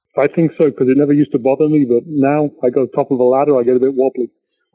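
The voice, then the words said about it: English accent. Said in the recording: “originally from Coventry, England. I detect a bit of an accent there.”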